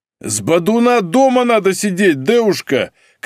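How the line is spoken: Angry shouting man. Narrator (Russian): кричал потный бизнесмен

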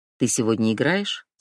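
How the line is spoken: Plain. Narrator (Russian): спросила Фатима

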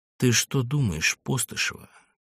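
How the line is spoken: Barely audible. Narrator (Russian): едва слышно начал он

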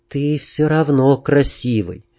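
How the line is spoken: Quiet. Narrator (Russian): негромко сказала она

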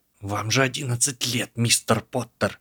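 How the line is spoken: Hissed reply, female professor. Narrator (Russian): прошипела в ответ профессор

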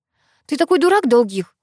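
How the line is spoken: Angry. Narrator (Russian): зло проговорила

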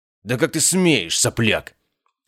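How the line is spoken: Angry bark. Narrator (Russian): рявкнул целитель

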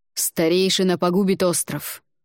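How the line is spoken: Angry. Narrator (Russian): зло произнес он

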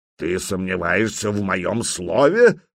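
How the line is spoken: Growled. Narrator (Russian): прорычал Стимит Большой

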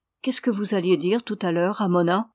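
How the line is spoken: Plain. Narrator (French): demanda-t-il

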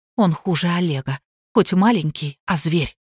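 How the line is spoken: Frightened whisper. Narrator (Russian): Люба вздрогнула и шепотом ответила

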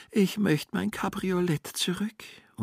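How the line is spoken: Woman groaning. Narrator (German): stöhnte

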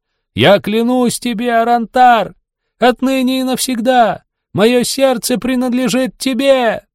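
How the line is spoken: Shout. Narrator (Russian): Лирин закричала

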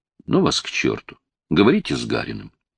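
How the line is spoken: Quiet reply. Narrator (Russian): Так же тихо Зоя ответила

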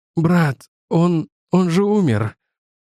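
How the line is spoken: Strained, forced out. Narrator (Russian): Я с трудом сумел кое-как выдавить из себя

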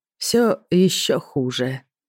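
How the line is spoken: Thoughtful drawl. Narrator (Russian): задумчиво протянул мужчина

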